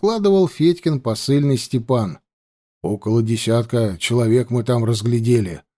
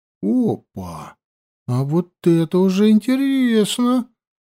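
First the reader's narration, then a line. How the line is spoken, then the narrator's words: Quiet exclamation. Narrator (Russian): воскликнул тихонько Егоров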